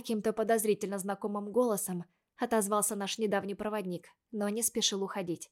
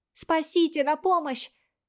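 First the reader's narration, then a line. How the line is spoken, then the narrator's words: Screaming with all strength. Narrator (Russian): Закричала я изо всех сил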